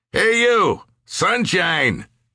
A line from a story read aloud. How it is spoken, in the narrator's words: shouted